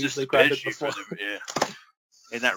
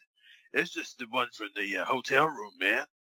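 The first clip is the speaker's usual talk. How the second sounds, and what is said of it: Imitates a raspy voice. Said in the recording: “that raspy voice that he had”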